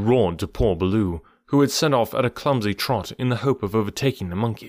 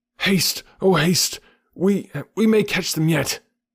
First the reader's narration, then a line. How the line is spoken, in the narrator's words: Baloo panted